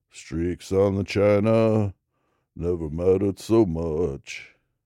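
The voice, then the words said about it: Bad imitation of a country singer. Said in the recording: “That's a terrible Johnny Cash impression I'm doing”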